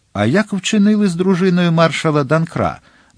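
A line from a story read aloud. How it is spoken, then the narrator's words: Frantic king exclaiming. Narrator (Ukrainian): нестямно вигукнув король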